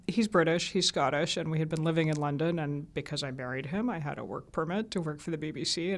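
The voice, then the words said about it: American accent. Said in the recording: “sounding the way I do with an American accent”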